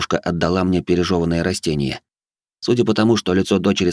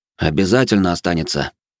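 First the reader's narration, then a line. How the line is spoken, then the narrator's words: Grumbling. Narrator (Russian): пробурчал я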